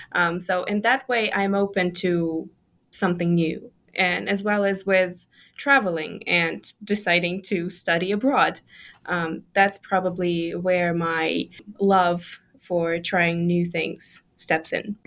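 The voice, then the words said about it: Slight British accent. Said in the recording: “a hint of a British accent in your speaking”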